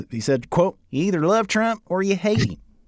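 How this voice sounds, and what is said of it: Imitation of Darren Bailey's accent. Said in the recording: “I guess I should do the Bailey accent here”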